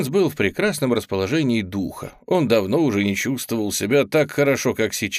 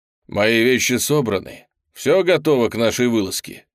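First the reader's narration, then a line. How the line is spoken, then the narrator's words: Plain. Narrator (Russian): спросил он слугу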